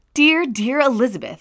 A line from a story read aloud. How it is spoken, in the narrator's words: I exclaimed when I had read her letter